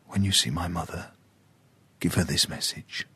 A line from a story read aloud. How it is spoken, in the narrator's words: whispered